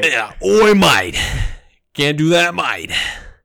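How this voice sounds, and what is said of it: Poor put-on Australian accent. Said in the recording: “speaking in an Australian accent ... which I can't do, mate.”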